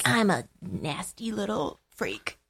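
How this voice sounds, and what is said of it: Smarmy impression of a character. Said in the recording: “He's great when he's smarmy. ... That's my Angel impression.”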